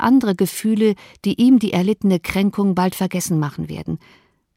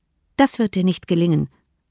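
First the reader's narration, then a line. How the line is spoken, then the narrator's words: Plain. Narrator (German): sagte Elizabeth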